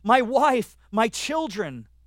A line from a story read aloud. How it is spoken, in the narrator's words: one of the selected men cried out